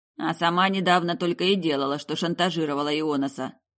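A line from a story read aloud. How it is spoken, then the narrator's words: Grumbled. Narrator (Russian): проворчал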